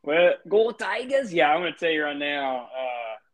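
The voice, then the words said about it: Minnesota-sounding accent, poor Louisiana attempt. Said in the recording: “That was like a Minnesota accent. That was not a Louisiana accent. ... Yeah, that was bad.”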